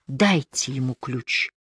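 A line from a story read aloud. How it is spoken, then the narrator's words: Very quiet. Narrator (Russian): Рамадин произнес совсем тихо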